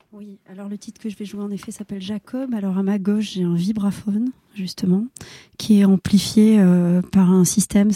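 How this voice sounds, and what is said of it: Speaks with a noticeable accent. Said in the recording (French): “pardon pour mon accent”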